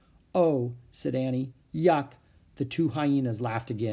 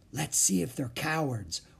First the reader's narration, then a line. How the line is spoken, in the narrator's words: whispered Annie